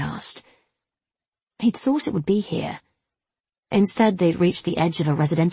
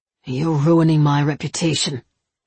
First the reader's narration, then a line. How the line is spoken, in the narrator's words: he grunted